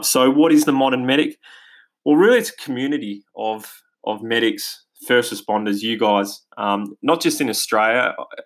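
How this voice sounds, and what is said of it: Australian accent. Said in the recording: “as you can probably hear from my accent, we're based here in Australia”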